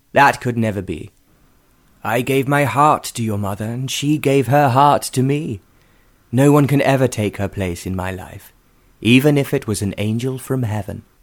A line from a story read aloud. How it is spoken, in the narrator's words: he said firmly